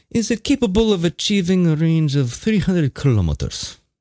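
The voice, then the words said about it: Put-on Russian accent. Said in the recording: “I don't know why I'm speaking like a Russian”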